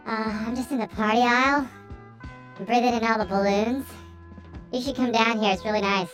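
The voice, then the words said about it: Squeaky high-pitched helium voice. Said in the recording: “I need to get some more helium for my voice changer ... I can tell you don't have enough ... Let me take another breath of this balloon”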